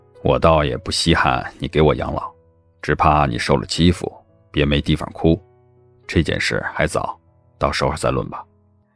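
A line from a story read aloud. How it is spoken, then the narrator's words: Frowning, deep voice. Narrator (Chinese): 孟年华眉心蹙了蹙 沉声说道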